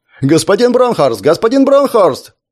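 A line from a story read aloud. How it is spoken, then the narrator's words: Shouting for attention. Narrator (Russian): прокричал репортер, пытаясь привлечь внимание мужчины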